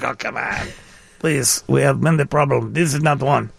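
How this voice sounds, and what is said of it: Put-on Russian accent. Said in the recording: “that was a Russian accent.”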